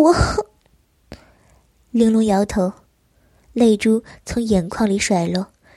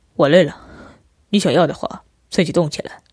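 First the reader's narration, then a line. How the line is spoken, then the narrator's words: Cool, flat. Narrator (Chinese): 琉璃……表情却淡淡的说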